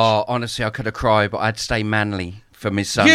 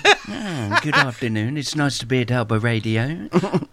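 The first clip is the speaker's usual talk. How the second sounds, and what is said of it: Frank Spencer impression. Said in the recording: “Can you do it as Frank Spencer would say it? ... Do the voice. ... I'm doing the voice now”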